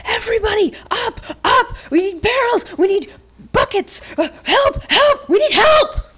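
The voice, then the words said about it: Frantic yelling character voice. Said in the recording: “he's yelling”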